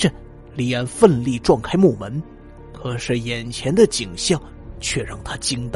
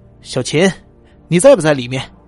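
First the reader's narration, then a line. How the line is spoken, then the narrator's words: Nervous loud shout. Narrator (Chinese): 李安…他壮着胆子…一边走一边大喊着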